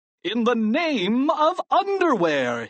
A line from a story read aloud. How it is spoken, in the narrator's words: he cried